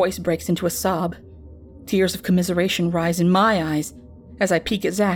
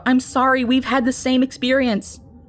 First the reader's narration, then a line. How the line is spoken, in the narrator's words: Another woman shouts out